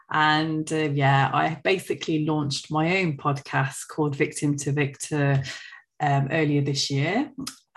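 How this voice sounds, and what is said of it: British accent from central England. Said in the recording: “as you can tell from my accent, I am from the UK, central England, a place called Coventry”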